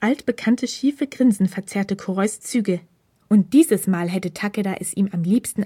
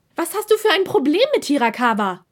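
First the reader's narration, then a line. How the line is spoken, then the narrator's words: Nearly shouting. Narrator (German): schrie er nun fast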